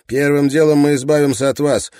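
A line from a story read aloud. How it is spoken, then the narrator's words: Sharp reply. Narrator (Russian): резко ответил Райленд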